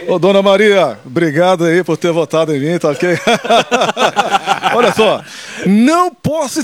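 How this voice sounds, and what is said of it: Imitates another person's voice. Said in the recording (Portuguese): “fala que é o Bolsonaro que tá ligando pra minha avó”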